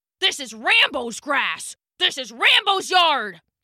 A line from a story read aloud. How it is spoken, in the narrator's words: the dog barked, baring its teeth